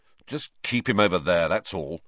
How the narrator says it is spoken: said Ron, irritably

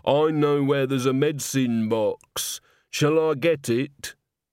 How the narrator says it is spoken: Christine groaned

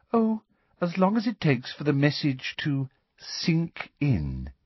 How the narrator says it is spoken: said Umbridge sweetly

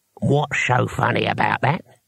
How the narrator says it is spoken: he asked, and his voice had knuckles in it

